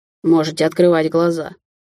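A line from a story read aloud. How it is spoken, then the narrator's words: Irritated, curt. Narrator (Russian): раздраженно бросил Даниэль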